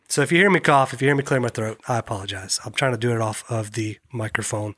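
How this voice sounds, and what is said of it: Voice sounds like a cold. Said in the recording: “if you can't already tell just by listening, I've got a cold, trying to kick a cold”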